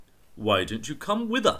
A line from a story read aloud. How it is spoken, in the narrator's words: said